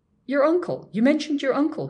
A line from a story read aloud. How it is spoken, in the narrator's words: he stammered